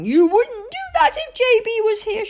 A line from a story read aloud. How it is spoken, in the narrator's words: she cried